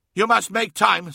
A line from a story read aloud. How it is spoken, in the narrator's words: snapped Ammon